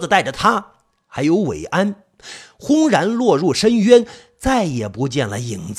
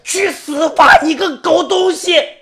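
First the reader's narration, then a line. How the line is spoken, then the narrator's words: Loud roar. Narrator (Chinese): 他一声大吼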